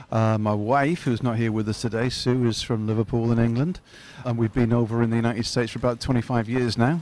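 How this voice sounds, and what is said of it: Fairly neutral northern English accent. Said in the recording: “What is that accent of yours? ... it's actually fairly neutral. I'm from the north of England in a place called Hull in Yorkshire”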